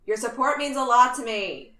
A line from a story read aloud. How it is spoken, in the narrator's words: Steve shouted after him